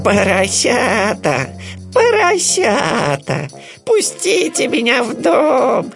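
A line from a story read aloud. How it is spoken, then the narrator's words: Bleating voice. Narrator (Russian): сказал он блеющим голосом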